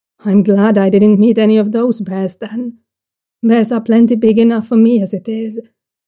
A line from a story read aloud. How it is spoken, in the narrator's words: Jarlinlan says eventually